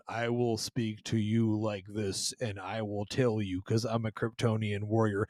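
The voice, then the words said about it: Flat monotone character voice. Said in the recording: “literally like this monotone ... he has no personality”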